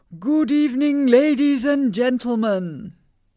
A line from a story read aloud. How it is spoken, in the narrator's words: A ringmaster shouted in a loud voice